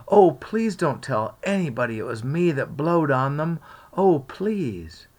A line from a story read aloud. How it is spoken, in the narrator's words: Huck exclaimed